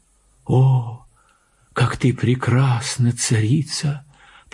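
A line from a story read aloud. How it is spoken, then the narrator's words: Whisper. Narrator (Russian): прошептал он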